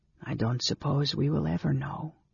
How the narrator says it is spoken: said his companion softly

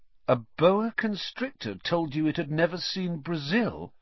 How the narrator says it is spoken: Ron repeated faintly

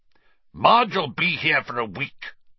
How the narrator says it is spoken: Uncle Vernon snarled

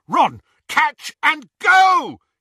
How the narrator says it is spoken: he yelled

